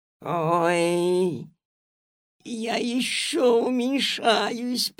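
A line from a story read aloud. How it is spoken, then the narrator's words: Moaned. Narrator (Russian): простонала госпожа Жадность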